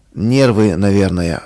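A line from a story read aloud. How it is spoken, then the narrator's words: Sighing. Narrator (Russian): вздохнул он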